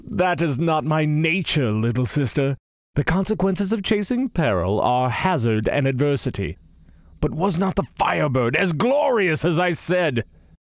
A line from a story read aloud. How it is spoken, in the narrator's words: he laughed and said